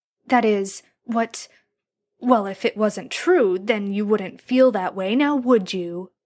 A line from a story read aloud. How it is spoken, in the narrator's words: Jared snarled